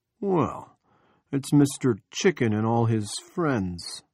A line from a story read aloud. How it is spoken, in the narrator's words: Andy said in a passable John Wayne drawl